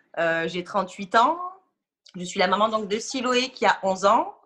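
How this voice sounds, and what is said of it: Southern French accent. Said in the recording (French): “je suis de Nîmes, du Sud. Vous allez vite l'entendre à mon accent.”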